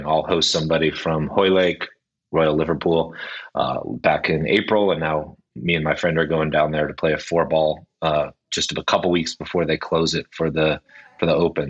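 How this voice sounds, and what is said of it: American accent. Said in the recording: “as an American with an American accent”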